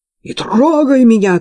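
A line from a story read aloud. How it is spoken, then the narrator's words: Shouted. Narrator (Russian): крикнула она сестре Виржини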